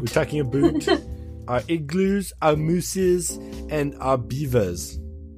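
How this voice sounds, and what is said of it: Put-on German accent. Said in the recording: “You sound German. ... Sounds French to me. ... That's an awesome impression. ... That was a solid German voice. ... do an accent ... that was okay.”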